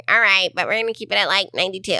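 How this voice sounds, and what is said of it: Imitates another person's voice. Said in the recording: “That's a good impression of me, by the way. ... It's exactly how you sound.”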